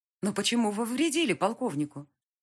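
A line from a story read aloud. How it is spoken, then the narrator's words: Hurried question. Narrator (Russian): спросила я торопливо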